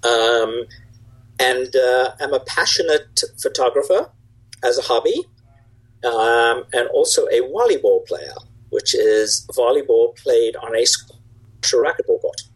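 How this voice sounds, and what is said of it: South African accent. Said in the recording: “I grew up in South Africa, which is where the accent is from.”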